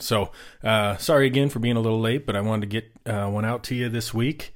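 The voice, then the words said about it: Voice sounding sick, recovering from illness. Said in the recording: “As you can hear in my voice, I'm getting over being sick”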